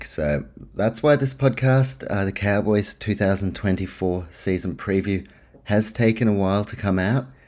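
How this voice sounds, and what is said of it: Sick, rough-throated voice. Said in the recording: “If you can't tell by my voice, I've been sick all week... my throat might be a little bit”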